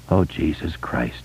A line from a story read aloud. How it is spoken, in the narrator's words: Bill said in a weak, teary voice